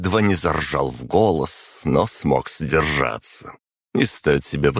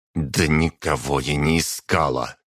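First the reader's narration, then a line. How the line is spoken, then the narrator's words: Muttered through clenched teeth. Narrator (Russian): процедила сквозь зубы Марина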